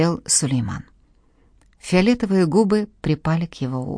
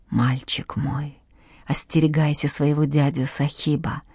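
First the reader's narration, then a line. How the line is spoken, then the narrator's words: Mother whispering. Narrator (Russian): прошептала мать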